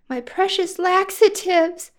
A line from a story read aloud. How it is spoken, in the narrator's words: cried